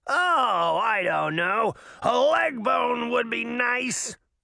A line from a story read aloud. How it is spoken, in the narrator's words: Puck said, attempting his goofy roar again